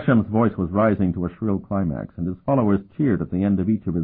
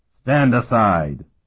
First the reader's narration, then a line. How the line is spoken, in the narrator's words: one of the disciples commanded harshly